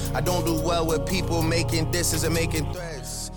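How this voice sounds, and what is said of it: UK accent. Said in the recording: “this guy's fucking UK accent”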